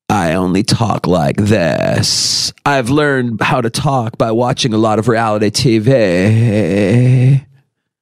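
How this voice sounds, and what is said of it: Exaggerated vocal fry. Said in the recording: “My pleasure with the vocal fry... You have to have the vocal fry... Can we end the vocal fry?”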